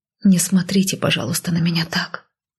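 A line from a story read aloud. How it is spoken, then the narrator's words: Exhaled. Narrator (Russian): выдохнула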